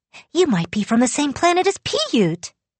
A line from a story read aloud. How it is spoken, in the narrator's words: I said excitedly